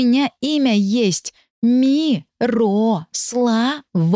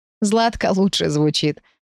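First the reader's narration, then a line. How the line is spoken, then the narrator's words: Laughing. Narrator (Russian): рассмеялся Дамир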